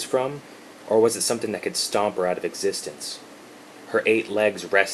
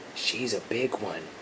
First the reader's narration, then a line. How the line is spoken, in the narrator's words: he whispered